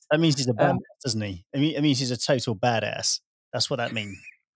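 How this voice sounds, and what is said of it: Put-on American twang. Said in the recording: “Do you like my twang there when I said badass? ... I'm very impressed with your American accent.”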